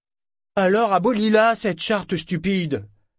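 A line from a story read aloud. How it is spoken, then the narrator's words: Roaring. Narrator (French): rugit-il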